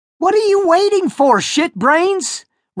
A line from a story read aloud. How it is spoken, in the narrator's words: Roger shouted at Noah